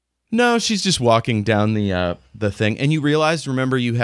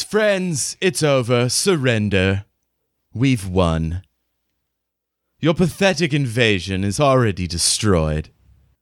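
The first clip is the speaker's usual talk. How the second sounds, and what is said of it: Cultured English accent. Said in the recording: “she's got kind of a cultured English accent.”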